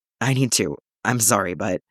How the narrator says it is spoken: says, hoarse, like he's been talking far too much

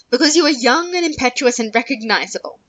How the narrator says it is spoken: she said sharply

